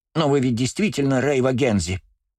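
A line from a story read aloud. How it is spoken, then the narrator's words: Squeak. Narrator (Russian): пискнул Юрий Коби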